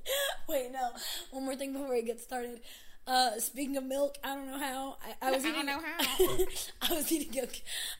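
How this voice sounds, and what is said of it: Hoarse, mostly lost voice. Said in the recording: “my voice is gone”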